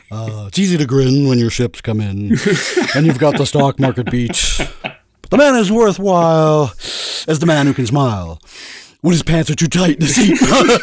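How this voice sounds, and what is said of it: Imitates another person's voice. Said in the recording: “you'd always do your Ted Knight ... That's one of my favorite impersonations you do.”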